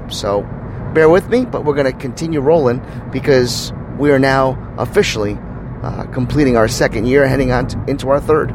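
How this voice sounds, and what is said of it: Hoarse, deeper voice than usual. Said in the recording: “if you think I'm sounding a little bit, a little bit hoarse this morning or a little bit deeper in voice”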